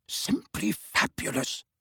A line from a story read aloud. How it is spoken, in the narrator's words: he whispered